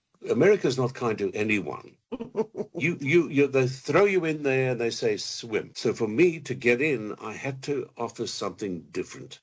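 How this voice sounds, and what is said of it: Non-American English accent. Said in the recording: “I've kept this voice and this accent. I've not gone all American”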